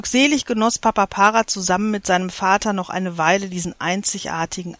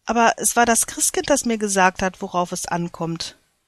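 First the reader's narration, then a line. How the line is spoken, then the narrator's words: Quiet reply. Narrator (German): entgegnete Papa Para leise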